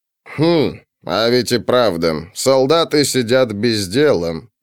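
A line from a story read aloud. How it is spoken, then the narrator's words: Grumble. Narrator (Russian): проворчал Формион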